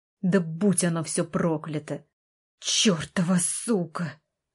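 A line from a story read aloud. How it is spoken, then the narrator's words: Hissed. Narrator (Russian): Прошипел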